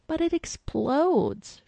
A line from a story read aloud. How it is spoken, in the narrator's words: she whined